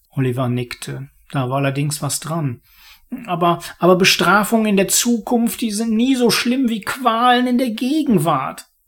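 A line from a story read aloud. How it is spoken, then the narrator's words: Murmur. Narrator (German): murmelte er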